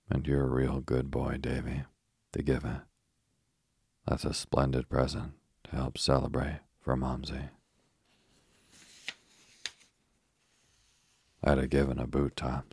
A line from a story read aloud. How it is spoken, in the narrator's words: said Joel, looking grimly